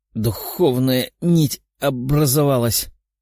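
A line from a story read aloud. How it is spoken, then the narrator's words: Strained moan. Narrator (Russian): простонала Светлана, пытаясь подняться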